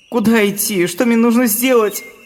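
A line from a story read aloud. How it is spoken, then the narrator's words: Whimpering. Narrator (Russian): захныкал он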